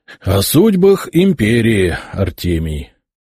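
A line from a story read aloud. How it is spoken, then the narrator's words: Sigh. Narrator (Russian): вздохнул Яромир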